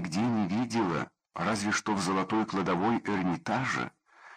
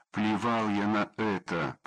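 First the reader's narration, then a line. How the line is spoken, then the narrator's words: Muttered through teeth. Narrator (Russian): процедил я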